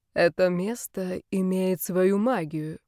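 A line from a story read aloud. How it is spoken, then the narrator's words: Serious voice. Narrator (Russian): серьезным голосом сказал Карл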